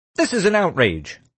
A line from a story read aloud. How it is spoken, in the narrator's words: Lars shouted